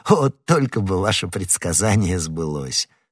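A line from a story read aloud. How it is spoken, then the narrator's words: Laughing. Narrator (Russian): смеясь сказал Д'Артаньян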